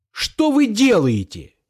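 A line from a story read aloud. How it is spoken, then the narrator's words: Shouting. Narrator (Russian): закричал я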